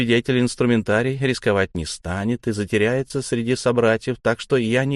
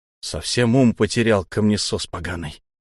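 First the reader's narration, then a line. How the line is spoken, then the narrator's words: Hissed. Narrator (Russian): Прошипел я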